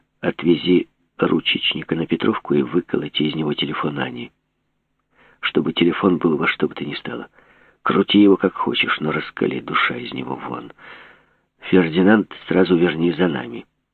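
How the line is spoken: Whisper. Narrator (Russian): Жеглов шепнул

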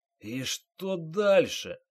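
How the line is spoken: Hoarse question, face on table. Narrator (Russian): хрипло спросил майор, распластанный лицом по столешнице

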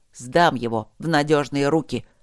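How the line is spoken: Panicked growl. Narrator (Russian): прорычал оборотень в панике

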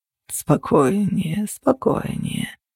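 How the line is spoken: Purring. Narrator (Russian): промурлыкал он

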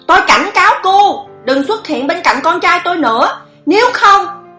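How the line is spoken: Shout from behind. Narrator (Vietnamese): Khương Thục Trữ hét lên sau lưng cô

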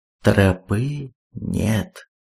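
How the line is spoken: Quiet. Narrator (Russian): Рейк тихо произнес

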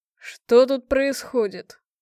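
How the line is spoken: Manly voice. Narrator (Russian): произнесены они были самым что ни на есть мужественным голосом

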